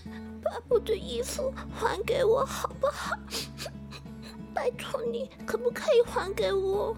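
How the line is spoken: Calling from a distance. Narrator (Chinese): 牛郎啊，从远远的树丛后面探出头来说

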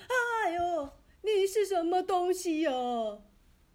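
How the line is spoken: Man shouting. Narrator (Chinese): 那位男士大叫

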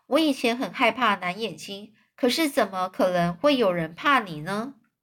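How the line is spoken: Soft voice. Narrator (Chinese): 万次郎轻声的对威威廉说

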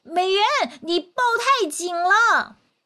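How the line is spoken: Hurried shout. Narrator (Chinese): 赶紧喊

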